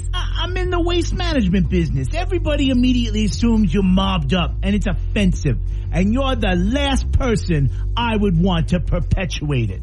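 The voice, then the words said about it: Tony Soprano impression, New Jersey mobster. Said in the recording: “talk to us as Tony Soprano ... flexing my accent muscles”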